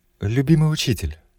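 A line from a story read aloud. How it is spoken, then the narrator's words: Began softly, woman. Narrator (Russian): мягко начала женщина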